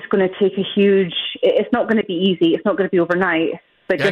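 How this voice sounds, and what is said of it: Distinctive delightful accent. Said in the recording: “thanks for the delightful accent.”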